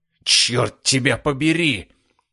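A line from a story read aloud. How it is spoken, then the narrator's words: Growled. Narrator (Russian): прорычал майор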